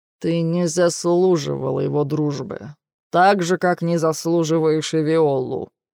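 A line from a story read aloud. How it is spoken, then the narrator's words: Through gritted teeth. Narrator (Russian): сквозь зубы цедит отец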